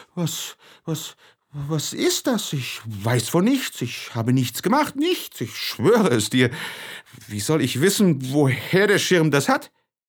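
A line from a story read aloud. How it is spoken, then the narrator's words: Stammering in disbelief. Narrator (German): Fassungslos über den Schaden stotterte er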